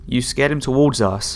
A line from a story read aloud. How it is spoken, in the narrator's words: I yelled into the radio